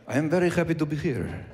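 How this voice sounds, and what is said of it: Suave put-on Spanish accent. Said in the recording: “The sexiest accent in the world is the Spanish accent ... I'm talking about people from Spain ... The authentic, old-time Spanish accent ... be all suave”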